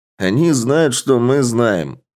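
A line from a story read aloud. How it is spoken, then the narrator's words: Snorting. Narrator (Russian): хмыкнул Варшавин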